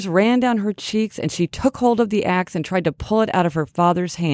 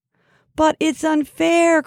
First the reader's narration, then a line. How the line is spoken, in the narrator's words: cried Fern